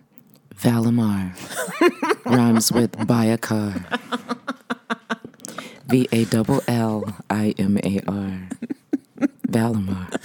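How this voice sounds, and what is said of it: Deep, low sultry radio voice. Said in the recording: “she has the best radio voice of all time... is your voice a little deeper today?... It's deeper today... that lower register... Sultry.”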